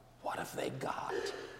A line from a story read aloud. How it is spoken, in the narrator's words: Alice whispered